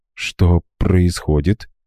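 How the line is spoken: Frightened whisper. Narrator (Russian): испуганным шепотом поинтересовалась Лиза

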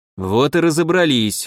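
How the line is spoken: Wolf's smirking grunt. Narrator (Russian): хмыкнул волк

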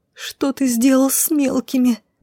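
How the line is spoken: Moaning. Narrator (Russian): Буквально простонала я, даже не пытаясь вырваться из стального захвата дроу

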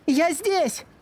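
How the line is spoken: Shout. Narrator (Russian): закричала она

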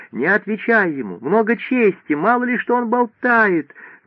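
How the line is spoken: Shouting. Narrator (Russian): Мадлена Баск кричала мужу

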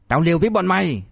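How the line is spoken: Shouting. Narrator (Vietnamese): Người đó hét lên

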